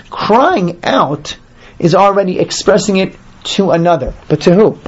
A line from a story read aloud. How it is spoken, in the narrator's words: They cried out